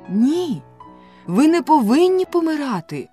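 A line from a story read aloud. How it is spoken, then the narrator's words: Exclaimed. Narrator (Ukrainian): вигукнула Софі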